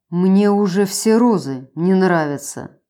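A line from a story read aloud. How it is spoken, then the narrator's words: Gloomy grumble. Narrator (Russian): Мрачно буркнул он в ответ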